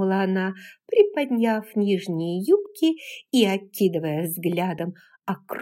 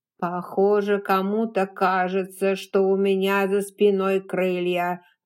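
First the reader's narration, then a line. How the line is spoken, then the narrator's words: Old nanny grumbling. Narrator (Russian): проворчала мамушка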